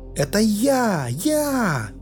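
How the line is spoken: Shout from behind. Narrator (Russian): выкрикнули позади

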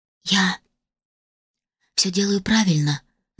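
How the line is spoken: Whispered after swallowing. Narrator (Russian): сглотнув, прошептала я

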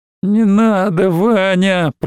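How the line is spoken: Moaning plea. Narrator (Russian): простонала Алина

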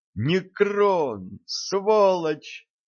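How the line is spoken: Silent mental scream. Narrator (Russian): мысленно завопил Валентин

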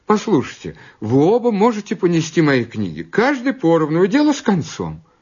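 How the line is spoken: Squeal, then speaking. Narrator (Russian): Ингрид взвизгнула, а потом сказала

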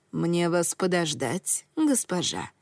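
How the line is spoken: Plain. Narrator (Russian): спросила служанка

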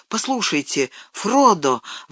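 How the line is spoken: Exclaiming. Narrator (Russian): воскликнул он

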